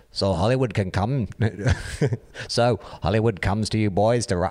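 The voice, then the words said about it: Attempted Liverpool accent. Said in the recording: “continue reading this in a terrible Beatles accent? ... Is that Liverpool? ... How do you do Liverpool?”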